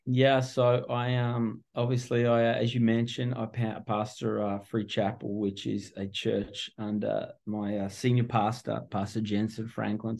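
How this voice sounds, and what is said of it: Australian accent. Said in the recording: “Obviously my accent gives me away pretty quick. I'm not local. I'm originally from Melbourne, Australia.”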